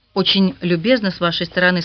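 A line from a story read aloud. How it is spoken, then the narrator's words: Plain. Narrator (Russian): сказала она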